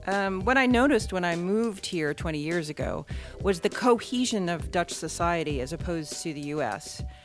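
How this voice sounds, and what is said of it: American English accent. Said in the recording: “as you can probably hear from my voice, I am American”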